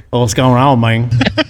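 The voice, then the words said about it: Put-on country accent. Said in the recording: “more of a country accent”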